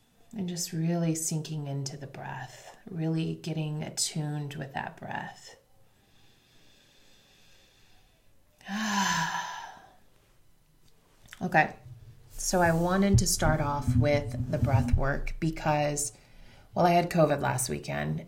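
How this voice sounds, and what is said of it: Deep, congested voice. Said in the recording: “you can kind of hear my voice is still a little deep ... I'm still pretty congested”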